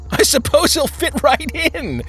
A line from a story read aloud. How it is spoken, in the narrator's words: Dull said with a laugh